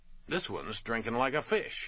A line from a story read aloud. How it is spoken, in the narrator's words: he said cheerfully